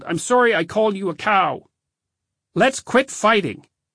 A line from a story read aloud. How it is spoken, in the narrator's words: I yelled